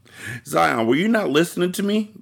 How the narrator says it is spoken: Jaden giggled

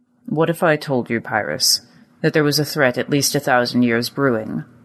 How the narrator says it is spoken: The old man snorted

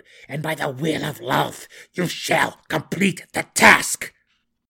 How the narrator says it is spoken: Malice bellowed

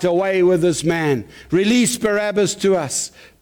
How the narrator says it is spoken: One voice they cried out

